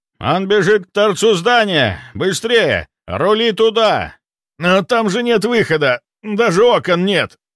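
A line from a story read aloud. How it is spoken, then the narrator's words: Urgent shout. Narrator (Russian): Выкрикнул курильщик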